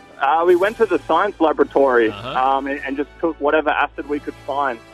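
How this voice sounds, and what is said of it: Australian accent. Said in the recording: “it's just funny hearing male genitalia in Australian accent”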